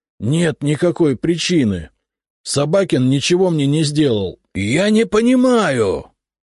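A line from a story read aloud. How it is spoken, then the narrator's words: Near shout. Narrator (Russian): Последние слова он почти выкрикнул мне в лицо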